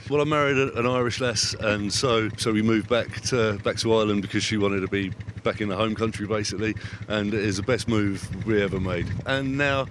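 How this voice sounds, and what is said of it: English Essex accent. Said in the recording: “Not a Cavan accent ... I'm Essex boy”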